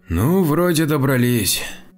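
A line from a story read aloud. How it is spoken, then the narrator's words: Breathed out, relieved. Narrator (Russian): выдохнул Александр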